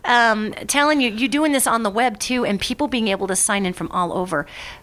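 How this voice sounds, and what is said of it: Very fast speech. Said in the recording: “I'm sorry I'm talking so fast”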